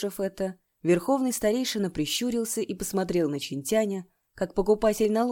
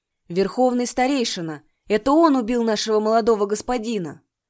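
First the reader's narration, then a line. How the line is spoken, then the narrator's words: Shout, sorcerer. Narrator (Russian): заклинатель выкрикнул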